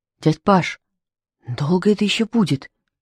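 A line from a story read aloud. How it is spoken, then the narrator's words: Trembling question. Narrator (Russian): дрожащим голосом спросил микроб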